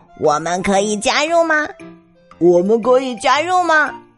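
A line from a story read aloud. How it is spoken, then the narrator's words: Croaking in chorus. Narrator (Chinese): 呱呱呱呱， 它们一起叫着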